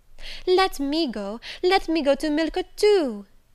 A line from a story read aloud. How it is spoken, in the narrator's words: she cried